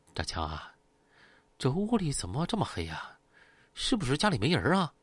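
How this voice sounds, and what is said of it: Quiet, hushed question. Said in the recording (Chinese): “小声问啊”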